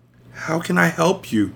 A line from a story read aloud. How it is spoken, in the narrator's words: I whispered